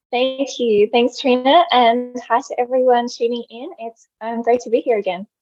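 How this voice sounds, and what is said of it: Speaks with a noticeable accent. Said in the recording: “you have like the most beautiful accent.”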